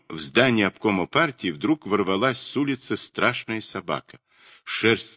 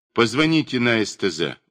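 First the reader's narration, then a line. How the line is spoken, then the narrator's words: Calm. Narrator (Russian): указал он спокойно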